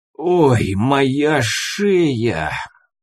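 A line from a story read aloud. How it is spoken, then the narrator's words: Groaning. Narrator (Russian): Простонал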